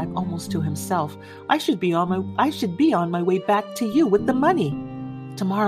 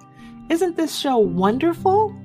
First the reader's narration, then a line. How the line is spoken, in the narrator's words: cried Mildred